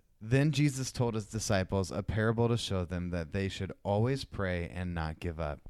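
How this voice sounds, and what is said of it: Preacher voice reading scripture. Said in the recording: “you've got a really good preacher voice... you got a when you preacher voice”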